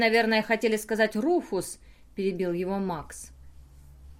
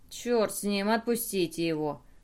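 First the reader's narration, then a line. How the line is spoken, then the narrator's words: Grumble. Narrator (Russian): проворчал Драмокл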